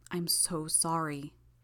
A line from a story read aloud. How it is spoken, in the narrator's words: murmured, just loud enough that only I could hear it